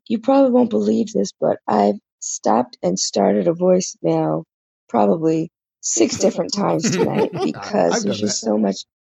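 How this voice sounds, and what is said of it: Losing her voice, hoarse. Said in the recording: “I'm losing my voice.”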